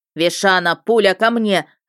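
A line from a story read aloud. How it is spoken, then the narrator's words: Barked, husband. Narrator (Russian): рявкнул любимый муж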